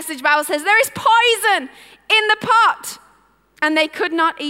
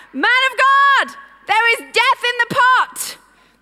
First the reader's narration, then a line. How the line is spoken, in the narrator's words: they cried out